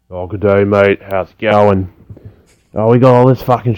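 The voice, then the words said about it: Broad blue-collar Australian tradie accent. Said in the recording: “he shifted his voice ... more blue collar, more tradie”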